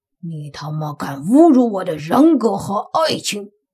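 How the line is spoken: Furious, through gritted teeth. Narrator (Chinese): 他咬牙切齿道

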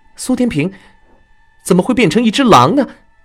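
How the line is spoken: Involuntary exclamation. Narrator (Chinese): 春雨情不自禁喊了出来

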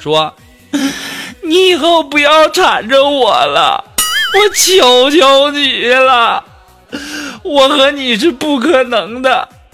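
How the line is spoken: Crying girl. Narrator (Chinese): 这女孩当时就哭了，然后就对我说

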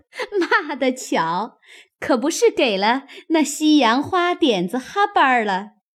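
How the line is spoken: Group laughing. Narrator (Chinese): 众人 都笑道

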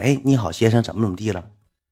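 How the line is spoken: Plain. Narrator (Chinese): 问

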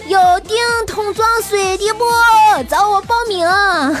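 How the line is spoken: Shouting. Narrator (Chinese): 在那大喊道

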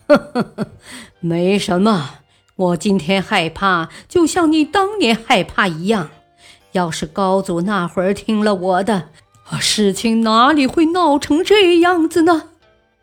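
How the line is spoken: Laughing. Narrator (Chinese): 张彦泽哈哈大笑

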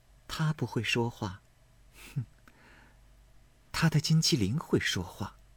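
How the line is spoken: Cold sneer. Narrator (Chinese): 林黛玉冷笑道

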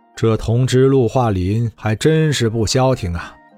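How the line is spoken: Sighing, slow. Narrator (Chinese): 贺世寿叹了一口气，缓缓说道

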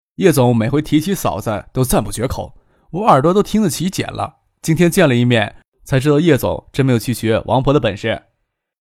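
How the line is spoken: Laughing. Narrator (Chinese): 笑着说

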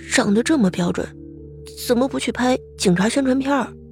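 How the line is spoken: Envious quiet inner muttering. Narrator (Chinese): 李沐雨不由得有些艳羡，心中小声的嘀咕着

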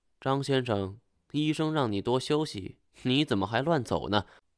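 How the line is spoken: Cold. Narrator (Chinese): 年轻女人冷冷地说

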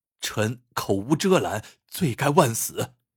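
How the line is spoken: Hurried apology. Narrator (Chinese): 韩亮急忙谢罪

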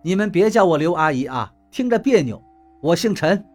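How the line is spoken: Cold. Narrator (Chinese): 刘院长冷冷地说道

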